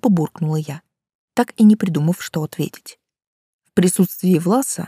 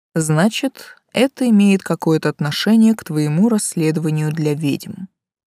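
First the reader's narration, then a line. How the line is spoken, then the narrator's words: Calm summary. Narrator (Russian): спокойно подытожил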